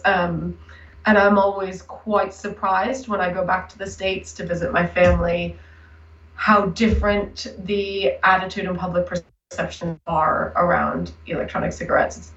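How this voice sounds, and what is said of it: Hybrid American-British accent. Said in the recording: “my accent, which is now a little bit of a hybrid, I've lived in the UK for quite a while now, but was raised in the US”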